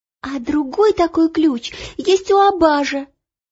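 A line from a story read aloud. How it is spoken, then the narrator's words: Sharp cry. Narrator (Russian): вскрикнула Ело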